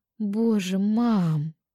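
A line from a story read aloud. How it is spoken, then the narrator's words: Groaning. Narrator (Russian): простонала я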